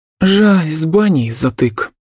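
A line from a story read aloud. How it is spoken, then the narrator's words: Regretful sigh. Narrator (Russian): с сожалением вздохнула я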